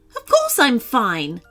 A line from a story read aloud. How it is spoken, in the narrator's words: Kika snapped